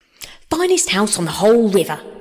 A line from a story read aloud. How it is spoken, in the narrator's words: cried Toad boisterously